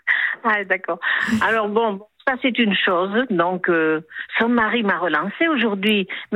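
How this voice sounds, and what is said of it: Slight southwestern French accent. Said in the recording (French): “Vous avez l'accent du Sud, à Toulouse? ... Je reconnaissais le petit accent du Sud-Ouest.”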